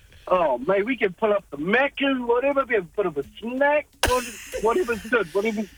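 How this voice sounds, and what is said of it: New Zealand Kiwi accent. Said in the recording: “how sexy the New Zealand accent is ... the Kiwi accent ... there's something sexy about the Kiwi accent”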